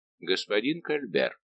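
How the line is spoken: Clipped, deliberate. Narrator (Russian): проговорил он, отчеканивая слова

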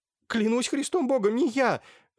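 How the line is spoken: Wretched babbling. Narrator (Russian): лепетал несчастный

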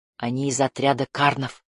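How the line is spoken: Whisper. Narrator (Russian): прошептал он

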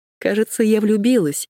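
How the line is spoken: Giggling. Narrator (Russian): хихикнула она

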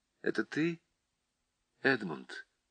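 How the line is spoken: Quiet. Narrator (Russian): тот тихо произнес

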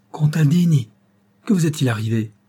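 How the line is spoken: Colonel exclaiming. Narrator (French): s'écria le colonel

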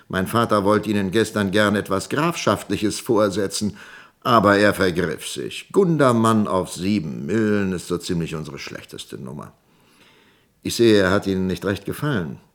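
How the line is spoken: Laughing. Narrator (German): lachte Woldemar

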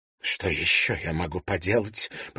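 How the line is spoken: Muffled mutter. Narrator (Russian): пробормотала швейцарка, не опуская платок от лица

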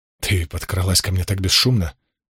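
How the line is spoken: Embarrassed mutter. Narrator (Russian): Немного смутившись, пробормотал

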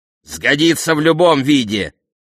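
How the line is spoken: Barked. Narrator (Russian): рявкнул Эврисфей

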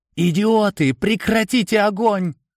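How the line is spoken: Terrified yelling. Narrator (Russian): Бейкер в ужасе орал

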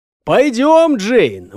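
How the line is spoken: Shouted without turning. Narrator (Russian): выкрикнул, не оборачиваясь

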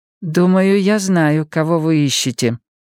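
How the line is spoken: Plain. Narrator (Russian): наконец сказал вьетнамец

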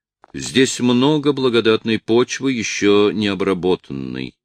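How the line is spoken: Plain. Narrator (Russian): сказал он

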